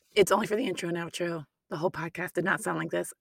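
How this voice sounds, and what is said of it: Hoarse, strained voice. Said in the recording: “I sound terrible ... I lost my voice”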